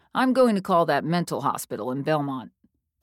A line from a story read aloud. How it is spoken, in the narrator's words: Dad said